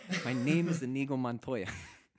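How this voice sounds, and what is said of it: Inaccurate put-on Spanish accent. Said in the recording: “the inaccurate Spanish accent”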